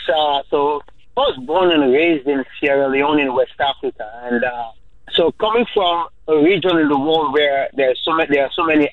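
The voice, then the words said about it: Strong West African English accent. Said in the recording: “living in America, they always tell me you have a strong accent.”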